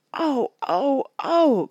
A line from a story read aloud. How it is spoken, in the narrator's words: cried Betsy Tacy and Tib